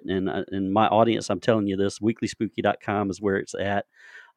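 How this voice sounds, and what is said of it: Southern twang accent. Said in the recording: “I've got that Southern twang.”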